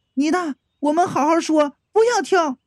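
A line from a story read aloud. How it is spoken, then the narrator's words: Calling out. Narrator (Chinese): 岳营上就叫道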